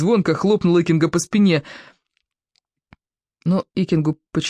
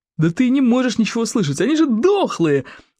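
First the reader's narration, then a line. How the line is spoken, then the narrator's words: Joyful exclamation. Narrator (Russian): радостно воскликнул бандюк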